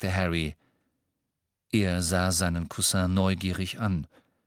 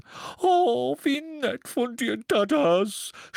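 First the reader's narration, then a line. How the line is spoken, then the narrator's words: Muffled sobbing. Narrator (German): schluchzte sie an seiner massigen Brust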